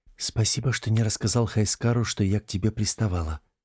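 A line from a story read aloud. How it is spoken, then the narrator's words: Whisper into ear. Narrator (Russian): прошептала она ему на ухо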